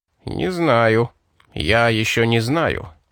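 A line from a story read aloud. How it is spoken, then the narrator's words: Grumble. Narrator (Russian): проворчал капитан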